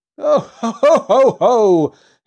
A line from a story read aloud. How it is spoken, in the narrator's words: he laughed merrily